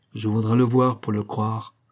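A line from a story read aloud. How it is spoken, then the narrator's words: Grumbled. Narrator (French): grogna le second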